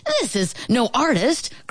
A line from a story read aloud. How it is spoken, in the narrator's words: cried William triumphantly